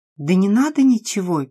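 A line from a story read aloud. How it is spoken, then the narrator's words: Excited panting dog. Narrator (Russian): пес также взволнованно подышал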